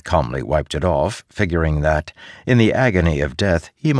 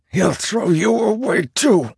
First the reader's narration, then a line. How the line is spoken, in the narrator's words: Tuco said, drawing breath like hisses in and out, hyperventilating against the pain